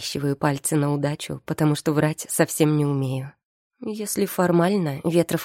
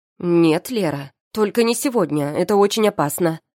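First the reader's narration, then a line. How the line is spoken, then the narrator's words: Harsh, very loud declaration. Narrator (Russian): заявляет тетя Марина слишком резко и громогласно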